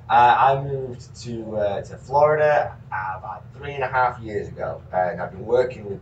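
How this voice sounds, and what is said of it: Yorkshire English accent. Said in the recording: “this is a very genuine Yorkshire accent you're hearing”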